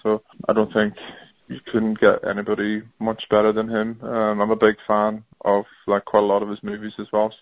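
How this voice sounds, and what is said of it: Northern Irish accent. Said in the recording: “Liam Neeson, maybe. He's actually, he's sort of got a similar accent. He actually was born and grew up not far from where I live in Northern Ireland.”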